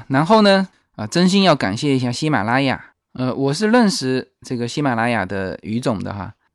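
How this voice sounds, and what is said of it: Mandarin with Fujian accent. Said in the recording (Chinese): “英文这么差，是吧？又有福建口音”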